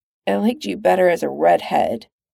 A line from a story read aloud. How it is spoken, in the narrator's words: Pete mumbles into her hair